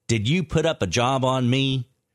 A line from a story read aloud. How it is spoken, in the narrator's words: sneers